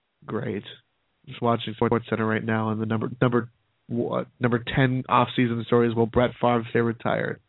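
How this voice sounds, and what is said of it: Strained, fading voice. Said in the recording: “I'm just losing my voice, I guess. I'm turning into you.”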